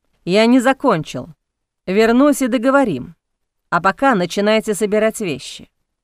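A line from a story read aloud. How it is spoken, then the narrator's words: Menacing. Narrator (Russian): грозно произнес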